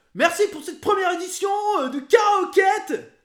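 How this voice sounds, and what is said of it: Provincial supermarket clearance announcer voice. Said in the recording (French): “Avec la voix d'un liquidateur de supermarché de province un dimanche de solde.”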